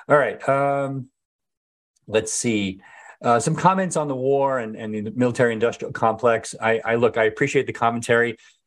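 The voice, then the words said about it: Strained, fading voice. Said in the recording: “I'm starting to lose my voice. I can feel it coming. ... So I am losing my voice”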